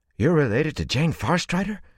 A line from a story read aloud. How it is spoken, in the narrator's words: said excitedly